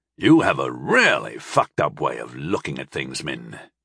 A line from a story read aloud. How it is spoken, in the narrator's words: Telemann snorted